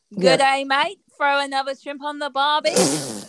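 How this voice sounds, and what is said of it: Put-on Australian accent. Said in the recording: “I can do a killer Australian accent.”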